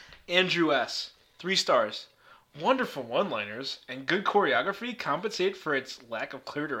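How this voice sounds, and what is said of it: Usual voice. Nothing is said of it.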